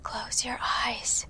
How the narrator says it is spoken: she whispered

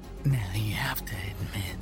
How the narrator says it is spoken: the boy said in a raspy voice, like something struggling out of goo

